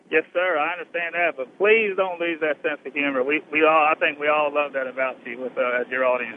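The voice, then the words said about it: American Southern accent. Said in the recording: “I could hear in your accent where you're calling from. Obviously, you're a southerner”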